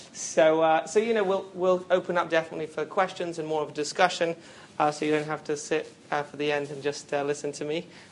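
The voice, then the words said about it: British accent. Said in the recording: “my British accent might be a little bit different”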